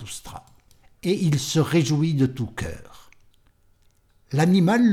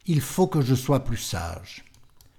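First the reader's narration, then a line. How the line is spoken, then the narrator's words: Sighing. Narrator (French): Il soupira et dit à son cœur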